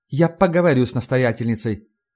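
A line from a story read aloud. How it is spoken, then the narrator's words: Dry, curt nun. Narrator (Russian): сухо сказала монахиня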